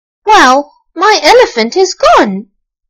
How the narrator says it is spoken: exclaimed Archie

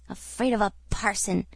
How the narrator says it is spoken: growled Moody, with a look of ineffable scorn

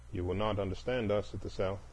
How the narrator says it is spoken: he said half-impatiently, as if continuing with an argument

